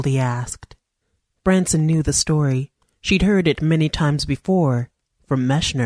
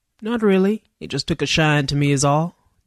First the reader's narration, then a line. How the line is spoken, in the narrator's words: Dooley said sarcastically